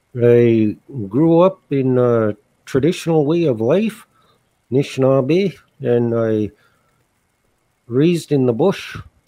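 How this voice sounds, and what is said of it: Distinctive, unusual accent. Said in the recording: “Your name is unique, as is your accent.”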